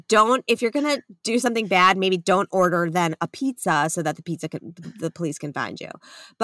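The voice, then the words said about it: Long Island accent. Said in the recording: “That was so Long Island of you ... my Long Island accent”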